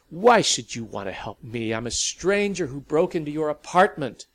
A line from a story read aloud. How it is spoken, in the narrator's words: Sally almost took refuge in toughness, almost snarled